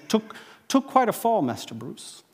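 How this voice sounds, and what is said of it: English accent imitating Alfred. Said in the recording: “Alfred says ... that English accent.”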